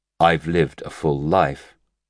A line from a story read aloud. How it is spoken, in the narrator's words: the wallbreaker said evenly